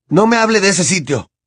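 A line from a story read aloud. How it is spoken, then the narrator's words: Fierce retort. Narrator (Spanish): le espetó Harry, con fiereza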